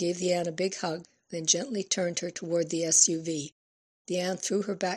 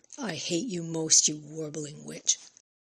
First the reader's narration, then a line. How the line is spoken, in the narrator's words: The Ann hissed at her